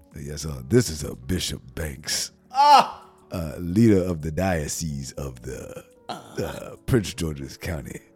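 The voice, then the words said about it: Put-on formal preacher voice. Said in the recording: “You gotta do your bishop voice,”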